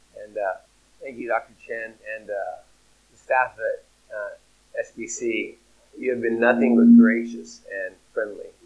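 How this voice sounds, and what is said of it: Rough, sick-sounding voice. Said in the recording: “Please pardon my voice. I'm recovering from a cold.”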